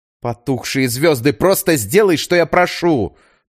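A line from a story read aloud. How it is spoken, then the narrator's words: Nearly shouted. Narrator (Russian): почти выкрикнула она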